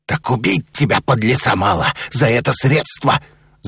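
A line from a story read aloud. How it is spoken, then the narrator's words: Angry growl. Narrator (Russian): зарычал посетитель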